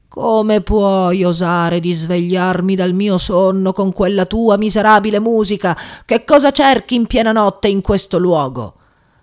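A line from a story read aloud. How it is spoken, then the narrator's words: Thundering voice. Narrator (Italian): gli disse con voce tonante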